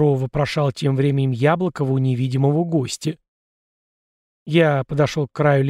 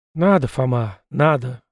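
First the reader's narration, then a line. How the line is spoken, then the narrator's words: Grim. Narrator (Russian): мрачно подытожил я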